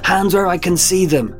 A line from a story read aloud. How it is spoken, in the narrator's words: Dubois barked sharply